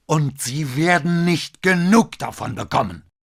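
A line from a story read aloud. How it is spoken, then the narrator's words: Near-roaring shout. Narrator (German): rief, dass es schon fast ein Brüllen war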